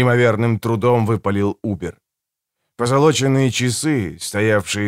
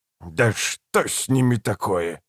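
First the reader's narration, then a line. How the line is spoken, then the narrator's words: Irritated growl. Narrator (Russian): раздраженно прорычал Эмос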